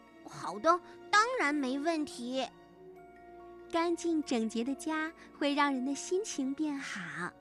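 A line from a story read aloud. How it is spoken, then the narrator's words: Smiling, cheerful. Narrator (Chinese): 歪歪兔笑眯眯地说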